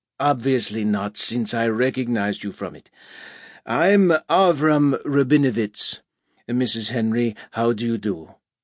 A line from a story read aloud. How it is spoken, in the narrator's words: He spoke clear English now, in an unfamiliar, somewhat harsh accent